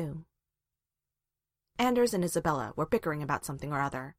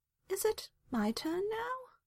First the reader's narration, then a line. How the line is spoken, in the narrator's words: Merrill asked meekly